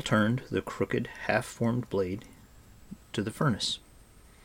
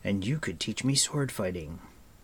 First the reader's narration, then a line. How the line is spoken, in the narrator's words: Taran sighed